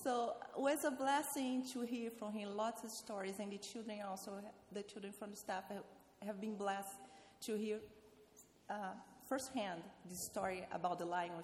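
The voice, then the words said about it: Non-native English accent. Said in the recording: “I have my accent. I don't want to tell the word wrong.”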